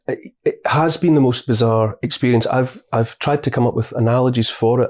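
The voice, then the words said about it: Beautiful accent. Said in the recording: “the most beautiful accent I've perhaps ever heard”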